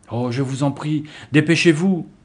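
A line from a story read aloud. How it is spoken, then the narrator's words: Girl exclaiming. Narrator (French): s'écria l'une des filles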